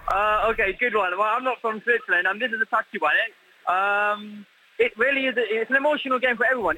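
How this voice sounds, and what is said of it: British accent. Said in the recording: “as you can hear from my accent, I'm British”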